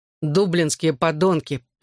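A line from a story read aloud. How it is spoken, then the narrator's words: Grumbling. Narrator (Russian): проворчал Гипси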